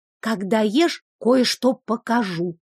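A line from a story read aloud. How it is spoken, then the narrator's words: Whispered in ear. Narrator (Russian): шепнула на ухо Ева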